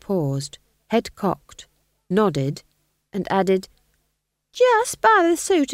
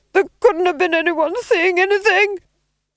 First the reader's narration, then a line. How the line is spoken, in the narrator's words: screamed the Duke